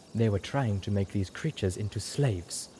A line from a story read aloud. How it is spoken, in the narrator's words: Zenith said in a low voice